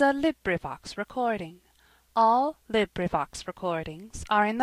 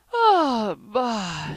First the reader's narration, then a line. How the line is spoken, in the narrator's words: yawned